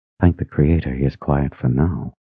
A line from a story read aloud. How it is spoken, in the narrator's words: Under her breath, she added